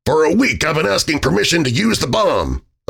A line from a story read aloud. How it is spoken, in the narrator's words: O'Donnell grumbled